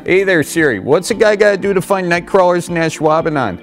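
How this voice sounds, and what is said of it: Exaggerated Wisconsin Midwest accent. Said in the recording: “it's hard to understand Wisconsin accents ... Does Siri have trouble understanding your Midwest accent?”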